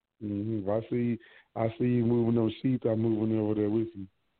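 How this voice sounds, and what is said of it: Hoarse voice. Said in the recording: “I'm hoarse. The my my voice being a hoarse is getting to me.”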